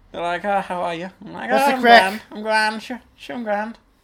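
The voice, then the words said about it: Put-on Irish accent. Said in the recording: “You should see me when ... I get into Ireland ... in with the Irish accent”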